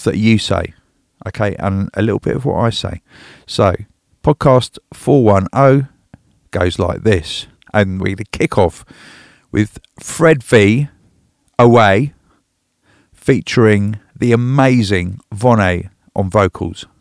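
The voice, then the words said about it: Congested, sick-sounding voice. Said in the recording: “sorry about my voice ... I've got a humdinger of a cold”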